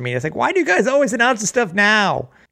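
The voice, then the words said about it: Poor Jerry Seinfeld impression. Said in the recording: “with their good Jerry Seinfeld impression. Not.”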